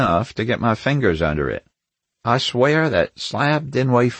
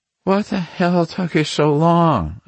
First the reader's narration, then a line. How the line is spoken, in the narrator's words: she asked wearily